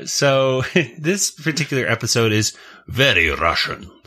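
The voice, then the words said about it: Put-on Russian accent. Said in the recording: “That's my Russian accent, by the way. Pretty good.”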